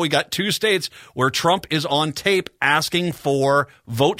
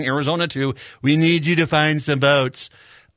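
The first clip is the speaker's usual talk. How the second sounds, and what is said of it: Impersonation of Donald Trump. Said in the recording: “your impersonation”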